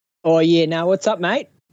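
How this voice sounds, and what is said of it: Put-on Australian accent. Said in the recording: “Australian ... This isn't my accent, but it's fun to pull it out.”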